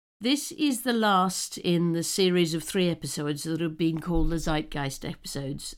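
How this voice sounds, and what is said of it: Voice altered from illness. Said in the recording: “my voice sounds a little different, it's because I am now, fortunately, recovering from COVID”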